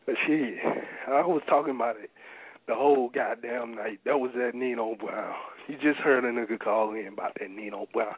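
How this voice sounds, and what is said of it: Strained, worn-out voice. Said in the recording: “You can see I'm losing my voice. I'm getting tired as hell”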